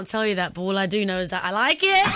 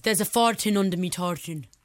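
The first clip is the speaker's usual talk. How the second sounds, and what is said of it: Put-on Scottish accent, slightly Irish-sounding. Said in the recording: “I've got a little Scottish thing ... It's almost a little Irish.”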